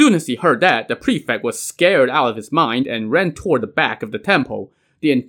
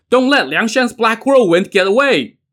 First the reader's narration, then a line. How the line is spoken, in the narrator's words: the guards, who immediately shouted